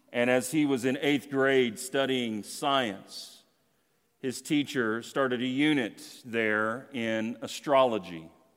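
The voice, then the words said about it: Southern American accent. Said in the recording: “it works with my accent, we're going to say he's in the South somewhere”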